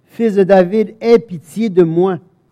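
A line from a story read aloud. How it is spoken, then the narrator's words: Shouting much louder. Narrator (French): il criait beaucoup plus fort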